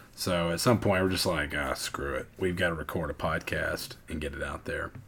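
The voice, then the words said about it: Hoarse, unusually deep voice. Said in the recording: “I'm losing my voice. ... hoping that my voice would come back. It is not. ... having my voice deep”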